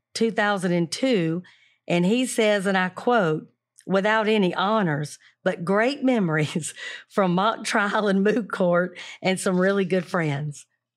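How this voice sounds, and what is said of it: Thick Southern accent. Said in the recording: “that syrupy, thick, beautiful Southern accent”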